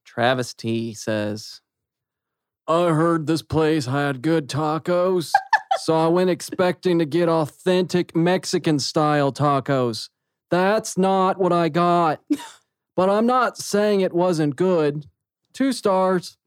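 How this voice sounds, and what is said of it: Reading in a funny voice. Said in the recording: “read this next bad review in a funny voice”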